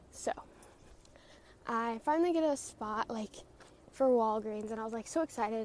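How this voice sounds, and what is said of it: Out of breath while talking. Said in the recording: “Sorry, my breath. Like, I'm out of breath.”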